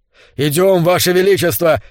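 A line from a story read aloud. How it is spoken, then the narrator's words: Shouting. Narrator (Russian): кричал он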